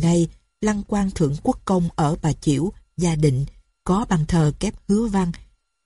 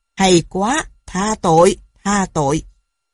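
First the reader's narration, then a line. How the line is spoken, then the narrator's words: Laughing loudly. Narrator (Vietnamese): Ngài cười lớn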